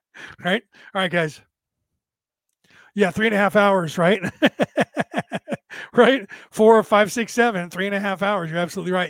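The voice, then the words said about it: Tired, fading, strained voice. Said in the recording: “you can tell my voice is fading ... after almost losing my voice ... it's damaged vocal cords. And the more I talk, the worse it gets”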